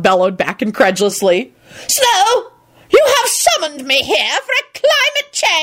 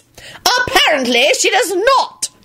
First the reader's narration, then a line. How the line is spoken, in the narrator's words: John barked back